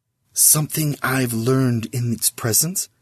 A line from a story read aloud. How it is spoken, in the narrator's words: he whispered to Sis